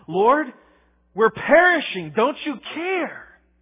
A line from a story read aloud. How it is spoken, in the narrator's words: they cried out in a very accusatory fashion